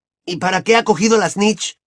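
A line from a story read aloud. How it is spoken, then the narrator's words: Exclaimed. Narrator (Spanish): exclamó Ron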